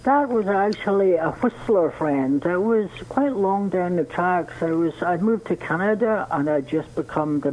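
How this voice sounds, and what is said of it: Scottish accent. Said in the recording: “this wonderful Scottish accent of yours”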